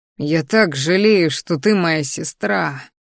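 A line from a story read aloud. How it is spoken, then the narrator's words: Bitter exhale, losing composure. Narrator (Russian): горько выдохнул, чувствуя, что теряю последние крупицы выдержки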